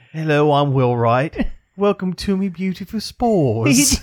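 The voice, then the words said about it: Put-on British accent. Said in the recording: “They give him a British accent. ... He's definitely not British.”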